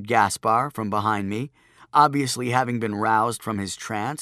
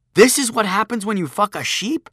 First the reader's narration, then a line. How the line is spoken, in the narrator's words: exclaimed